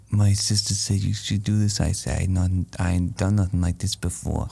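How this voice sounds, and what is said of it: Whispery character impression with mouth noises. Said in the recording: “my impression of the firefighter ... The mouth noise is awful ... Ooh, the weird noises ... Who is he whispering to?”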